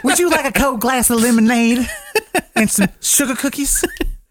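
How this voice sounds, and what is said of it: Effeminate put-on Southern accent. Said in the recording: “effeminate Southern accent”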